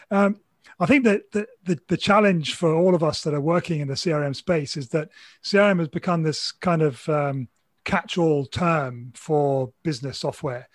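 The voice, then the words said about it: Slightly hoarse voice. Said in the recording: “apologize for my voice. This is the fourth or fifth call this morning ... if I'm sounding a little hoarse, it's because I've probably been a little bit too exuberant on earlier calls”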